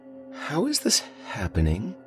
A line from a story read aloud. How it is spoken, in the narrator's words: I murmured